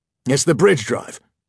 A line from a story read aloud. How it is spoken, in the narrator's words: he blurted